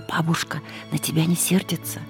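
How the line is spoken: Aunt's whisper in ear. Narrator (Russian): тетя и шепнула мне на ухо

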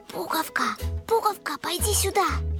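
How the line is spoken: Whisper. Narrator (Russian): сказала шепотом

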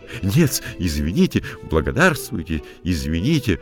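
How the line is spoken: Flustered babbling. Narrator (Russian): залепетал франт

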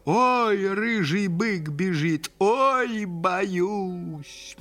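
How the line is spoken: Mock-frightened shout. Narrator (Russian): нарочно испугался и закричал

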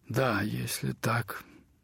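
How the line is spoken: Uncertain agreement. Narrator (Russian): неуверенно согласился он

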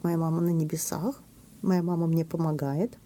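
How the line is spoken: Calm speech. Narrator (Russian): сейчас он спокойно говорит

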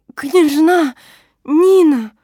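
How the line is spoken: Wild strange voice, choking sobs. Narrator (Russian): Каким-то диким, не своим голосом вырвалось из моей груди, и полузадушенная рыданиями

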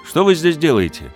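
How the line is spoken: Shouted. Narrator (Russian): крикнул он на них

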